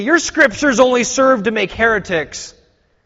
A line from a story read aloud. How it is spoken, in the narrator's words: they exclaimed